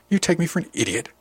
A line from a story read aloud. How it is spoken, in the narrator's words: spat